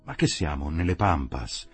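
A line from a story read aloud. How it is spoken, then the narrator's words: Exclaiming. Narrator (Italian): esclamava Pagani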